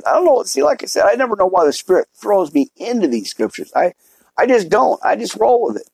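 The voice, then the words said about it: Raspy, sore, hoarse voice. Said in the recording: “My throat's getting a little sore here, a little raspy ... I've been sick for 3 days, 4 days or so ... pretty much lost my voice ... you can still tell it's kind of raspy. It's kind of not good yet.”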